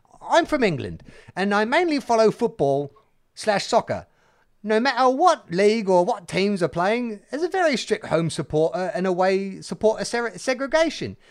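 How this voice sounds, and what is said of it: Put-on English accent. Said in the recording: “From the English accent.”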